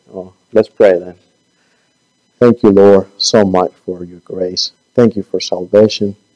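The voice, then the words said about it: Hoarse, fading voice, sounds like whispering. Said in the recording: “I'm not whispering. I'm losing my voice.”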